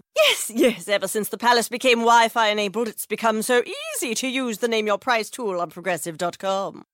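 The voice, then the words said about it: Imitates a royal family voice. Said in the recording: “my impression of a tech savvy royal family”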